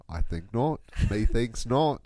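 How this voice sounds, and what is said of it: Put-on British accent. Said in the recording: “I am loving your British accent right now.”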